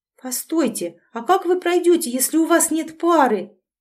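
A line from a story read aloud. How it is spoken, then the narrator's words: Sudden exclamation. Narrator (Russian): Вдруг воскликнула Василиса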